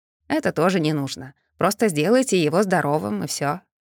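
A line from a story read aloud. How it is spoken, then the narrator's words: Calm request. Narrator (Russian): спокойно попросил Трой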